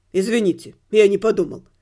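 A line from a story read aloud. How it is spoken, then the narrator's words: Tearful guilty mumble. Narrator (Russian): пробормотал проштрафившийся подросток, вытирая слезы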